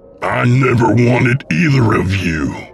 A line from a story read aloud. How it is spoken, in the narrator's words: William said with a snarl